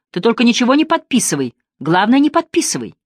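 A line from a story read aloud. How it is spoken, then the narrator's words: Heated, uncontrolled shouting. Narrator (Russian): Потеряв всякий контроль над собой, он горячо кричал буфетчице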